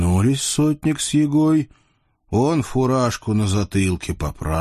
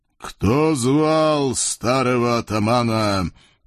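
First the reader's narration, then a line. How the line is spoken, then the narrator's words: Booming ghostly voice. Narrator (Russian): призрак прогудел голосом впечатляющим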